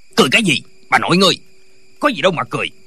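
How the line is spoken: Official shouting. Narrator (Vietnamese): Viên quan lại quát lên

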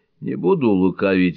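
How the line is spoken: Sighing. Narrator (Russian): вздохнул он

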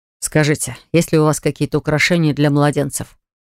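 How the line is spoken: Plain. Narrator (Russian): Спросил он

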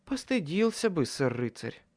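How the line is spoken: Content, slightly dreamy voice. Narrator (Russian): Вполне довольным и даже чуть мечтательным голосом отозвалась Леа

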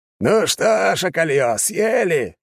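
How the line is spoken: Gruff loud bark. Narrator (Russian): гаркнул он

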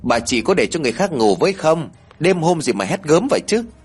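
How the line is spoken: Loud annoyed question. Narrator (Vietnamese): Hậu lớn tiếng hỏi

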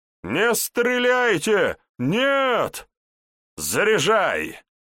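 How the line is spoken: Loud chuckling command. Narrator (Russian): посмеиваясь, громко скомандовал Вожников

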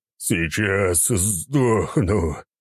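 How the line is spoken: Moaning. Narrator (Russian): простонал Егорыч

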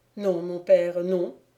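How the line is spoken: Plain. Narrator (French): répondit Évrard

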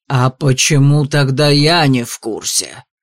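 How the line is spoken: Dragon's growl. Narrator (Russian): рыкнул дракон

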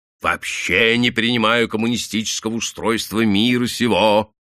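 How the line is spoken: Deep bass voice. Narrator (Russian): пробасил рослый грузчик

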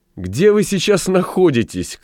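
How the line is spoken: Shouted laughing. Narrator (Russian): крикнула, смеясь, Элли

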